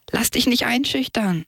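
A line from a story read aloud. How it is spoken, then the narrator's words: Calling in farewell. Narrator (German): rief beim Abschied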